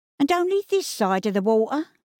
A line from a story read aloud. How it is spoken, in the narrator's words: she chuckled